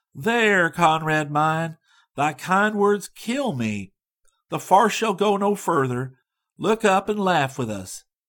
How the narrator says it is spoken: a sweet voice cried

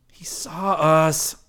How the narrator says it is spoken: Rick groaned

